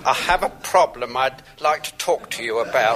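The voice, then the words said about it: Muffled voice. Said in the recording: “my voice sounds muffled, but I'm speaking to you from under the bedclothes”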